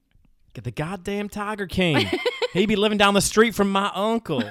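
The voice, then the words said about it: Put-on regional accent. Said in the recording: “quite possibly a lot in this accent ... Why are we talking in this accent”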